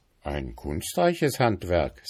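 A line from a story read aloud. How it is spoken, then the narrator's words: Plain, father. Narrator (German): sagte der Vater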